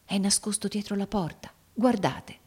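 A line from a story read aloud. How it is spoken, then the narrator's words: Whispered. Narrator (Italian): egli bisbigliò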